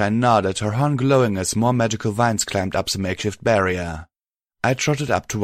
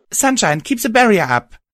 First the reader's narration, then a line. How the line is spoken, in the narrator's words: called out